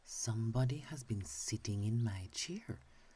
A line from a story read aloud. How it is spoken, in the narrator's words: said the middle bear in her middle voice